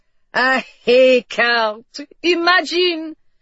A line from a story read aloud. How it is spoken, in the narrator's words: He laughed